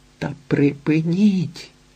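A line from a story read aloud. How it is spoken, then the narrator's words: Moaning. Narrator (Ukrainian): стогне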